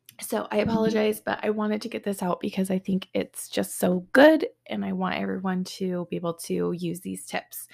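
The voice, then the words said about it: Slightly raspy voice. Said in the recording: “I sound a little raspy,... my throat's been healing from a cold”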